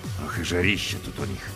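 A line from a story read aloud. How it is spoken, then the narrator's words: Grumbling. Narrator (Russian): проворчал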